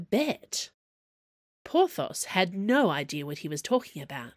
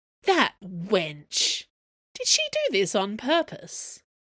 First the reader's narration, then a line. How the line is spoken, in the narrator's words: Athos yawned gently